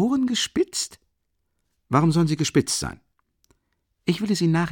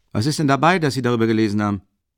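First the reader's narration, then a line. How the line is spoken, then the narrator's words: Sudden impatient exclamation. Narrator (German): rief plötzlich ungehalten und ungeduldig aus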